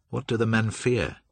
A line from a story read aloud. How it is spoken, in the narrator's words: he asked in a polite, cold tone